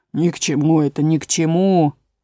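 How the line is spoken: Frog grumbling. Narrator (Russian): проворчал лягух

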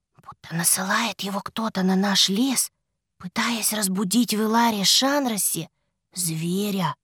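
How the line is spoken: Whispering. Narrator (Russian): прошептала она

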